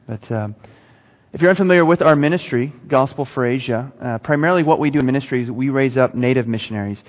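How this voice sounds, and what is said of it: Texan accent. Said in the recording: “hope you can understand my accent. ... I'm from Dallas, so Texas.”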